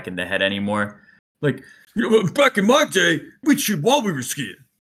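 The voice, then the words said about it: Grumpy middle-aged American man voice. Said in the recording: “vaguely middle-aged, red-faced American man accent”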